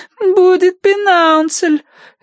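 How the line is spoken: Whining. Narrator (Russian): хныкала Агнес

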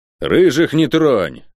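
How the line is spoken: Gruff bark. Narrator (Russian): гаркнул на нее Гонор

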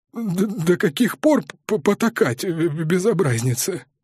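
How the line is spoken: Embarrassed, strained, apologetic. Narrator (Russian): выдавил он смущенно, оправдываясь за вспышку ярости

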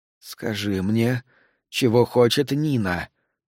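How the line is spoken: Whisper. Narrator (Russian): прошептала она

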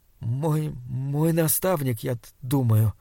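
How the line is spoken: Stammering. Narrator (Russian): запинаясь, ответил Саймон

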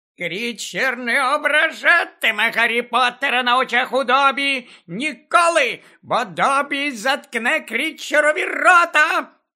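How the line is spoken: Shrill shrieking. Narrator (Ukrainian): Пронизливо верещав Добі

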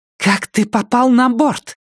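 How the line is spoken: Hissed. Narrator (Russian): прошипела Беата

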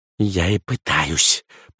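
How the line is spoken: Muttering. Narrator (Russian): пробормотал Кукуратор

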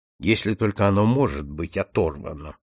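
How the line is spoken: Grumbling mutter. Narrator (Russian): буркнул Сомерли

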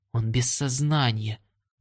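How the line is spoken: Whisper. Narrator (Russian): прошептал кто-то

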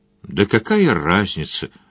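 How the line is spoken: Weary. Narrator (Russian): устало сказал Джон Том

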